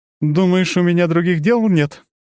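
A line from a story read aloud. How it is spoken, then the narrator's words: Sobbing goddess. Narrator (Russian): богиня всхлипнула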